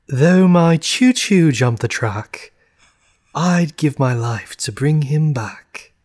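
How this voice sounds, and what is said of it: Put-on British accent. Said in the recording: “one more time, but with a British accent.”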